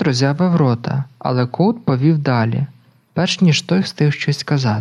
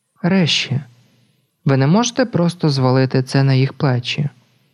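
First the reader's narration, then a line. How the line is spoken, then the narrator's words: Sighing. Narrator (Ukrainian): Коут зітхнув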